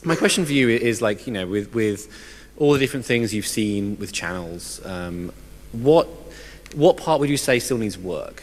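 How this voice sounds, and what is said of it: Hoarse, failing voice. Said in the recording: “my voice is gone”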